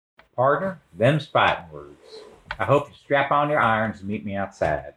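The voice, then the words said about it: Put-on Old West cowboy accent. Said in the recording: “Oh, I like my Old West accent. I'm really feeling it. I'm feeling the Old West.”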